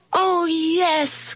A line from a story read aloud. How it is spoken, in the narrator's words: cried the kids